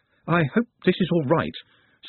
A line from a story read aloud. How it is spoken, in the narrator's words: said Nut nervously